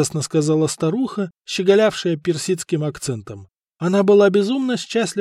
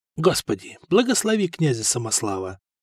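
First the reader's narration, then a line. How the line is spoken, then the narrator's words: Whisper. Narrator (Russian): прошептал Коста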